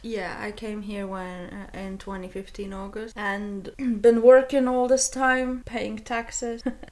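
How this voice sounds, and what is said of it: Non-British foreign accent. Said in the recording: “if you can't tell by my accent, I'm not from UK”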